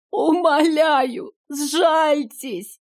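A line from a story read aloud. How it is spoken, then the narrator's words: Old person sobbing plea. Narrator (Russian): всхлипнул кто-то старческим голосом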